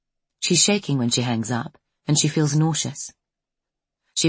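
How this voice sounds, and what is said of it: Usual voice. Nothing is said of it.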